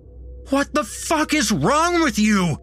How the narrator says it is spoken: I yelled at him, renewing my struggle to get free

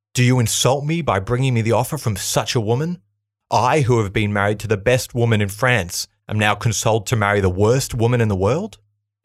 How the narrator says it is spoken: In a bout of uncontrolled rage, spat

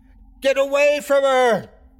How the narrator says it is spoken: screamed

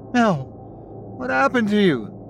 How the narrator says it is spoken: he cried

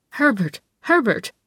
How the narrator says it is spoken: cried Adele Bernauer suddenly

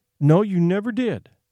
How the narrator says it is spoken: said his mother

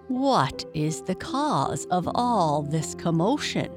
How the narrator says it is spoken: he asked

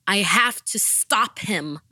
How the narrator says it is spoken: I shouted

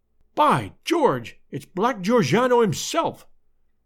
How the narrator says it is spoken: cried the American detective

